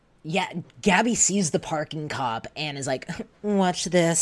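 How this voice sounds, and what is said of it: Usual voice. Nothing is said of it.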